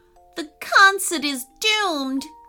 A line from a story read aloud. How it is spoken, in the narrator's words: groaned Ashton